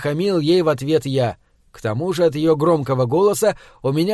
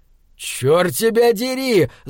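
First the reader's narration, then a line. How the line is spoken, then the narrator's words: Angry yell. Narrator (Russian): заорал я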